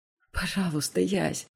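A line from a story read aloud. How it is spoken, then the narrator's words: Barely audible whisper. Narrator (Russian): шепчу едва слышно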